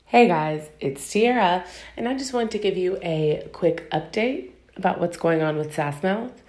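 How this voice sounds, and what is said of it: Voice affected by a cold. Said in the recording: “I don't know if you can tell in my voice, but I'm battling a cold”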